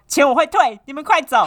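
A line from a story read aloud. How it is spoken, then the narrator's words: Angry. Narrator (Chinese): 柜台主任愤怒的怒视我说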